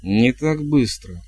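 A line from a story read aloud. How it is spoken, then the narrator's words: Through clenched teeth. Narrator (Russian): процедила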